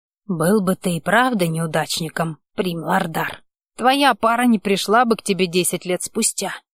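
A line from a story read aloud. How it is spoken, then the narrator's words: Whispered objection. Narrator (Russian): возразил шепотом волшебник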